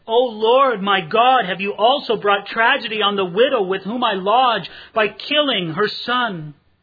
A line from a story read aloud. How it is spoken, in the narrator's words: he cried out to the Lord and said